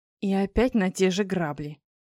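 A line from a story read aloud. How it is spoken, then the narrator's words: Grumbling. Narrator (Russian): я забурчала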